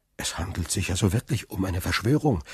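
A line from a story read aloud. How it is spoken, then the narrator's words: Fearful question. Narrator (German): fragte Dantès ängstlich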